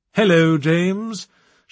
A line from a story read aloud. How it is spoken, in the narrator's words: she said, in a posh accent that could have cut diamonds